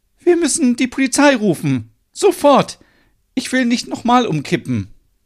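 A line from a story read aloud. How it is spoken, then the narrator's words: Calling out. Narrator (German): Stina ruft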